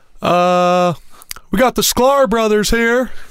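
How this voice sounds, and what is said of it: Imitates another person's voice. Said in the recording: “my Brady Hoke impression”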